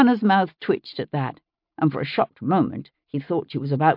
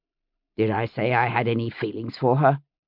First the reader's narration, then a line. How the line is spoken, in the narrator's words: he demanded irritably